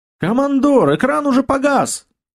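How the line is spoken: Loud shout from distance. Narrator (Russian): громко крикнул Серега из окна

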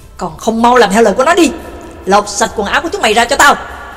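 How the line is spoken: Roar. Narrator (Vietnamese): Y gầm lên một tiếng

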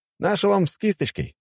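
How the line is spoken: Smirk into phone. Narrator (Russian): хмыкнул я в телефон

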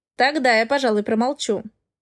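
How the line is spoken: Snorted. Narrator (Russian): фыркнул он

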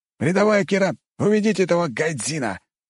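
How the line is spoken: Soldier barking. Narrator (Russian): рявкнул вояка

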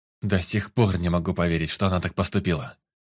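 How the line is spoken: Exhaled words. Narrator (Russian): Наконец выдохнул Лоренс

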